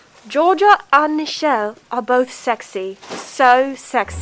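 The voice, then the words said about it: Put-on British accent. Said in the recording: “British. I can do British.”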